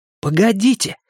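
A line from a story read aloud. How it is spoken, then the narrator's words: Exclaiming. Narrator (Russian): воскликнул Бен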